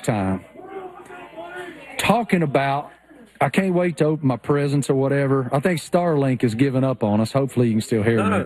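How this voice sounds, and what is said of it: Thick rural Appalachian accent. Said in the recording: “I am such a hillbilly redneck that it's unbelievable how thick my, you know, rural Appalachian accent is.”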